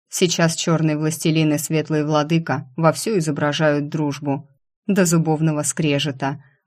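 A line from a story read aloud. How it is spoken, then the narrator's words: Gloomy, father. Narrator (Russian): мрачно сказал отец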